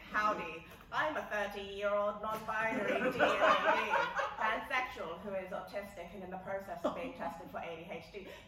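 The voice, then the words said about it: Put-on transatlantic accent drifting Southern. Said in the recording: “I can do a transatlantic accent. ... It's not quite American and not. ... Not quite American and not quite British. ... Oh, it's howdy. It literally starts with howdy. ... She's immediately going southern.”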